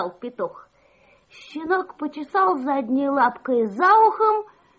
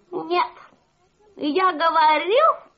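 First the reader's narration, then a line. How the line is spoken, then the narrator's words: Rooster's shout. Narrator (Russian): Петух закричал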